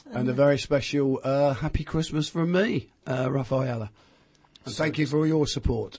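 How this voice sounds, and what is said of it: Hoarse, failing voice. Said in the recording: “losing my voice again”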